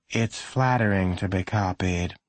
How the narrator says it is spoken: the mother said in a tired voice

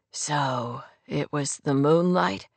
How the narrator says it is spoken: His voice was hoarse and painfully raw

